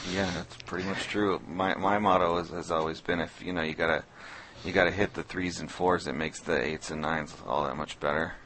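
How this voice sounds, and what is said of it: Slightly hoarse voice. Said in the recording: “I'm getting a little hoarse.”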